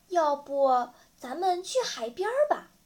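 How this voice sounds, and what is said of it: Quiet, hushed suggestion. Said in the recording (Chinese): “小声提议”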